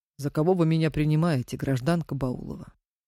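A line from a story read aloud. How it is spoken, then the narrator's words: Even voice. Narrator (Russian): ровным голосом произнес Наганов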